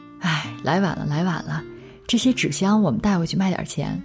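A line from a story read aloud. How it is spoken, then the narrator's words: Muttering. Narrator (Chinese): 嘴里嘀咕着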